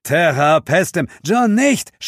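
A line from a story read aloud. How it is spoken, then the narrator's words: Scream. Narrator (German): schrie Zuko vom DJ-Pult aus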